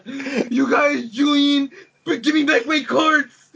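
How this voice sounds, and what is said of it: Poor imitation of a cartoonish character. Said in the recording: “Bubbles from Trailer Park Boys ... That was a horrible, horrible impersonation.”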